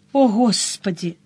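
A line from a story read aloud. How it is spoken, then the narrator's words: Woman sighing. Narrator (Russian): вздохнула женщина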